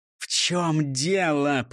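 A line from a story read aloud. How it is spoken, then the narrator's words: Hissing. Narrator (Russian): прошипел Дон Карлос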